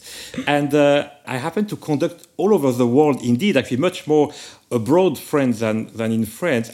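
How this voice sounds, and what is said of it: French accent. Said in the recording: “I am French, as certainly you could hear from my little accent”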